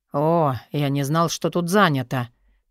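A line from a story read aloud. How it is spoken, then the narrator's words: Grumbling old man. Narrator (Russian): проворчал дедуля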